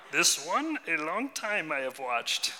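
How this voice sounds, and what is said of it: Yoda character voice. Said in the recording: “do my Yoda voice. Should I do my Yoda voice?”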